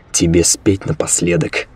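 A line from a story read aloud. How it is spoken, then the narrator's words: Smirking grunt. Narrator (Russian): хмыкнул Серега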